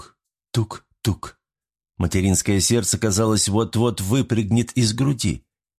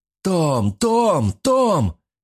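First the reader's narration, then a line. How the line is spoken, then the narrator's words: Shouting from the fog. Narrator (Russian): кричал ей туман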